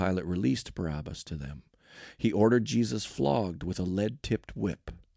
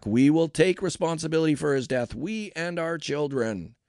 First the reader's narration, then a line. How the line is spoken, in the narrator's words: all the people yelled back